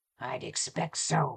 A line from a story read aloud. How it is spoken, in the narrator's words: he growled, and the rough sound